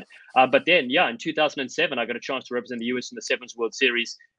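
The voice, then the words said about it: African accent. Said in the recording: “My accent's African”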